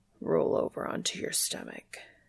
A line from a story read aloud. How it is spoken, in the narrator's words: he says huskily